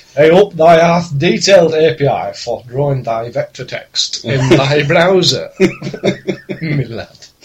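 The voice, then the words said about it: Mock-Shakespearean northern English accent. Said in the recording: “Shakespeare in a northern accent”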